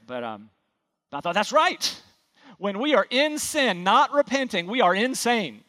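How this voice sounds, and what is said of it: North Carolina accent. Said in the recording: “my North Carolina accent”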